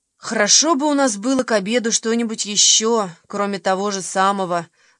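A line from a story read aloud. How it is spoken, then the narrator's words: Sighing. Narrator (Russian): вздохнула Уна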